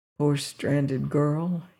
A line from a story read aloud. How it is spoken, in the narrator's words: he muttered